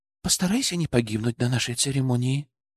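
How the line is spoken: Quiet. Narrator (Russian): тихо сказала Азуми

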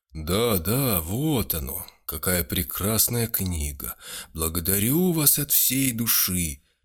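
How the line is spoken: Heavy sighing. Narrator (Russian): несколько раз тяжело вздохнул

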